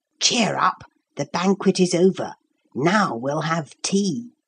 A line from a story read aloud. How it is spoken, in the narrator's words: said, once more in a whisper